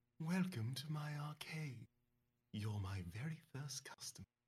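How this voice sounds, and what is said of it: Whispery character voice. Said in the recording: “in a whispery voice ... She whispers.”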